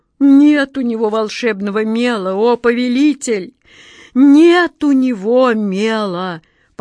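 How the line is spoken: Meek, dejected moan. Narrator (Russian): покорно и уныло простонал Джин

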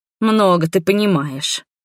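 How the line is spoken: Annoyed snort, old woman. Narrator (Russian): раздосадованно фыркнула старушка

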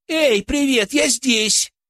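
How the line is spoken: Woman suddenly shouting. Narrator (Russian): Женщина вдруг прокричала кому-то

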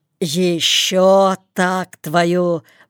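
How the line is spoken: Hoarse wheeze. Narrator (Russian): просипел он

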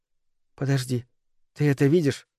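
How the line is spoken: Whisper. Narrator (Russian): прошептала Микаэла

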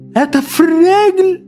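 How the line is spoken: Confused exclamation. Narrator (Russian): в замешательстве воскликнула

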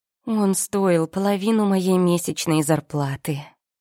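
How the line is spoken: Upset sighing statement. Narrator (Russian): расстроенно вздохнув, сообщила я

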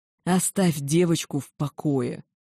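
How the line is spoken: Growling. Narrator (Russian): прорычал тот

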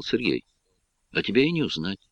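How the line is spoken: Quiet. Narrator (Russian): тихо сказал

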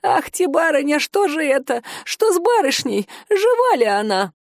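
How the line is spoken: Old woman wailing, choking sobs. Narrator (Russian): Старушка запричитала, захлебываясь в едва сдерживаемых рыданиях

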